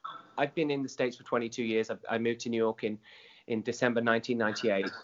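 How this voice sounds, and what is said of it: Non-American accent. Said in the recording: “I'm a proud New Yorker, despite the accent”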